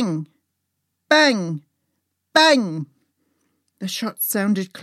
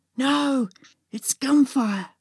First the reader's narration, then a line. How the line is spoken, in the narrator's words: I gasped